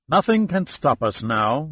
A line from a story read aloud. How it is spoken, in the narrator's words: said cheerfully